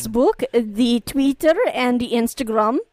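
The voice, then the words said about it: Put-on vague foreign accent. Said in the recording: “what is that accent? ... It's still not Russian. ... That was multicultural.”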